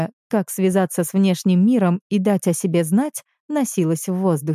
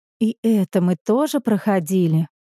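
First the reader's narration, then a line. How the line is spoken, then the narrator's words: Crushed, dejected tone. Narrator (Russian): убитым тоном произнесла Алевтина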